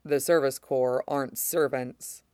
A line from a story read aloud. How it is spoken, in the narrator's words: Mace says evenly